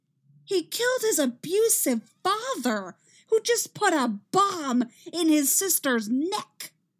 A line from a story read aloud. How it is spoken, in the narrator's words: Iris shouts